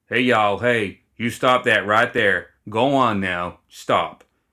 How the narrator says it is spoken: cleared his throat without raising his voice at all, said flatly

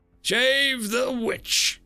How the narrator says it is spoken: Edison cried

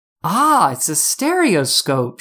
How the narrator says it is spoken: she said excitedly

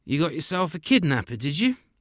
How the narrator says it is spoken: He almost laughed

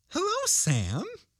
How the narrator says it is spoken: she said brightly, aloud

